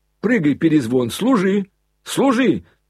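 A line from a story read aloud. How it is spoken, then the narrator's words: Excited yelling. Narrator (Russian): завопил Коля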